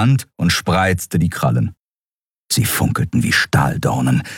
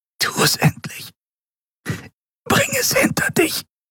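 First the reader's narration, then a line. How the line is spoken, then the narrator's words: Whisper. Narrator (German): flüsterte sie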